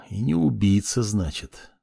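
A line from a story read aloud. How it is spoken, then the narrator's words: Mysterious mutter. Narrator (Russian): загадочно пробормотал себе под нос Кай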